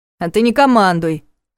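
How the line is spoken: Snapping retort. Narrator (Russian): огрызнулся тот

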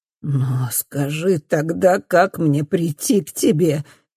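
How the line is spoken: Father sobbing. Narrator (Russian): рыдает папа

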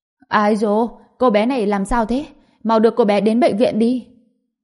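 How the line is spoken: Loud woman's cry. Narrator (Vietnamese): Cô gái mập mạp này lớn tiếng kêu lên

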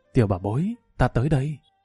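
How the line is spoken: Soft, tender. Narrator (Vietnamese): Lâm Văn Vinh vội vàng nuốt nước bọt, ôn nhu nói

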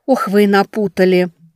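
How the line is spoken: Sighing. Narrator (Russian): вздохнула Велька

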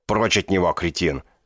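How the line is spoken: Bark. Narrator (Russian): рявкнул один

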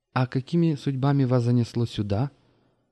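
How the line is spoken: Polite social tone. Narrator (Russian): светским тоном осведомилась Маша

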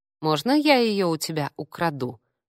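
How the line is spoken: Menacing question. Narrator (Russian): грозно спросил Ник

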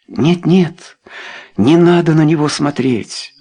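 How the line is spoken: Exclaimed. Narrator (Russian): воскликнула она

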